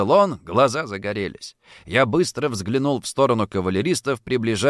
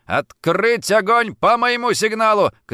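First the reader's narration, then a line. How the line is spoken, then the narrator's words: Shout. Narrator (Russian): крикнул я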